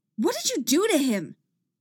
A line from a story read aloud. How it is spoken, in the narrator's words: She shouts